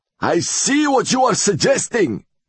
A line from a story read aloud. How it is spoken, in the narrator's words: he cried